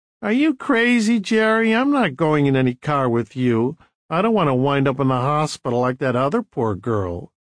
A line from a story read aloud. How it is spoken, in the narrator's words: one of the girls laughing and saying